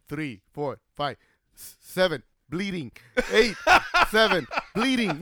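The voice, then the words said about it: Put-on foreign accent. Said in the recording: “That's just the accent. ... Is he Armenian or what?”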